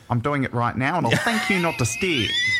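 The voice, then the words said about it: Imitates another person's voice. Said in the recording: “I impersonate Ray Comfort, and I'll talk like this, and I get very angry about things ... Totally sounds like.”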